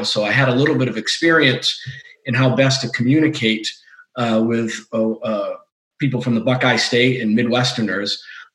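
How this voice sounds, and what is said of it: Massachusetts Boston accent. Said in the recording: “my Massachusetts and Boston accent.”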